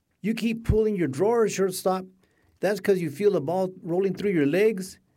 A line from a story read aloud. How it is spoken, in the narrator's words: she shouted